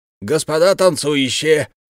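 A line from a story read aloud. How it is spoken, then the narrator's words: Yelling. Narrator (Russian): заорал Сивушкин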